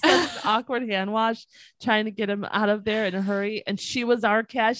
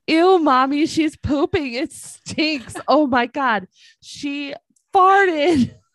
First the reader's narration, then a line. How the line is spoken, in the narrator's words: My son was horrified at the sounds and smells coming from the stall next to us and started yelling at this poor woman saying